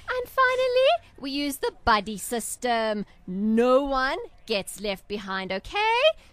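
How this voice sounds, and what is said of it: Schoolteacher voice. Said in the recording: “You sound like my Afrikaans teacher ... I've heard this voice before. I've heard this teacher before.”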